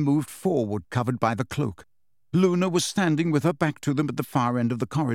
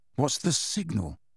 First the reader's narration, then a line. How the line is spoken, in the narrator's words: muttered Harry